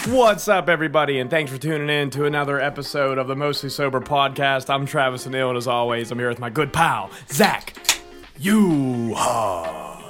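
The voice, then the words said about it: Hoarse, strained voice. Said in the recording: “You're hoarse... I'm surprised you have a voice”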